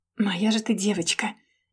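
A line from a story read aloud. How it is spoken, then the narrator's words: Tender whisper. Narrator (Russian): нежно прошептал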